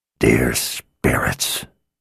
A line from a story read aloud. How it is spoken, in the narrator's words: Victor whispered